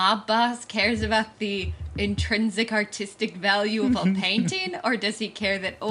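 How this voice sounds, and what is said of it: Usual voice. Nothing is said of it.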